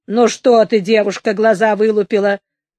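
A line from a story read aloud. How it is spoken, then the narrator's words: Angry. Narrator (Russian): сердито сказала она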